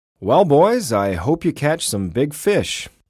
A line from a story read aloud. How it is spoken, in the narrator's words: said Tom's dad